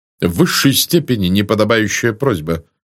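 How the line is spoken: Cold reply. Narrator (Russian): холодно ответил полковник

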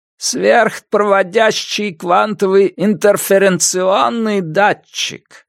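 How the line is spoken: Cracked elderly voice. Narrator (Russian): объясняет Джейкоб Голдман своим надтреснутым старческим голосом

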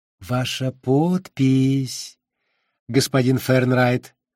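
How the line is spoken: Gentle, condescending correction. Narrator (Russian): улыбнувшись, словно несмышленному ребенку, ласково поправил Джо председатель

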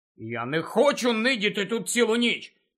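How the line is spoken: Angry objection. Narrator (Ukrainian): сердито заперечив Гаррі

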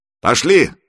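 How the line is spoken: Loud bark. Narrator (Russian): гаркнул Иван

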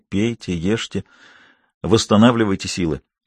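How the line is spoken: Doctor whispering. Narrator (Russian): врач шепнул

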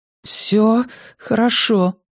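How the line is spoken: Strained woman. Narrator (Russian): выдавила она

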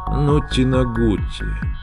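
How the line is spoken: Barely audible rasp. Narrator (Russian): прохрипел Скотч еле слышно

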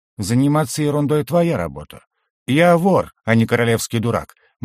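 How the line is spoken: Gloomy. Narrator (Russian): мрачно ответил я

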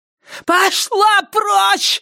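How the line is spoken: Woman screaming. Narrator (Russian): завопила она

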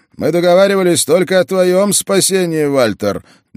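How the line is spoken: Shout in foreign tongue. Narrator (Russian): на общем языке княжеств крикнул лейтенант

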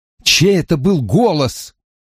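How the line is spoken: Pleading. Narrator (Russian): взмолился я

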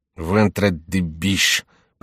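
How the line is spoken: Grumbled. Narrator (Russian): проворчал Шико

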